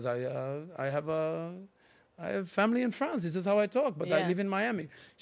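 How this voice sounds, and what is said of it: Convincing put-on French accent. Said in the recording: “You are from Paris. I can tell. ... that's how good my accent was”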